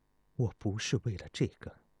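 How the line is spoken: Murmuring. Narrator (Chinese): 钟离春喃喃地说道

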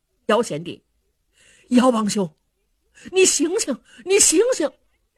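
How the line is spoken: Calling out repeatedly. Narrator (Chinese): 两个人叫了半天

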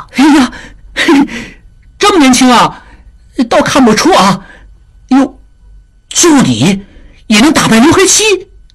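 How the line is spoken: Surprised crowd laughing. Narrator (Chinese): 众人闻言一惊，忍不住又笑起来

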